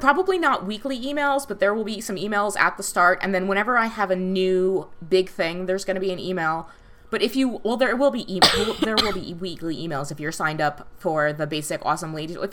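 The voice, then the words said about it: Speaking very fast, excited. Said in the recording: “I'm going to speak a little bit slower now. I'm really excited. ... So now I'm talking really fast.”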